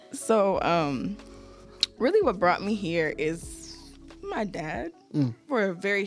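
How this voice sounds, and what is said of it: Childlike, baby-like voice. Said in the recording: “They said I have a baby voice... You do... she sounds like a 3-year-old.”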